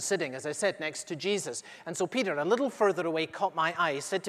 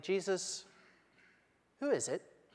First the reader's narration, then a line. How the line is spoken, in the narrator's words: said quietly